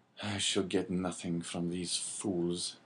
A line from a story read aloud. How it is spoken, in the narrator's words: muttered